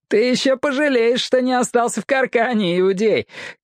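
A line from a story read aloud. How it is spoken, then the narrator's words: Shout. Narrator (Russian): крикнул кто-то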